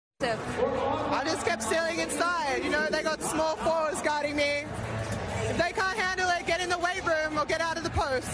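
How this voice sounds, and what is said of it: New Zealand accent. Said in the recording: “Kiwi. New Zealand. ... They all have that cute accent.”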